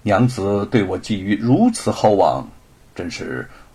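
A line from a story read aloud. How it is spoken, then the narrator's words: Smiling. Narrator (Chinese): 吴承恩笑了笑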